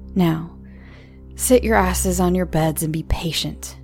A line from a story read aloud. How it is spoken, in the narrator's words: growled the second guard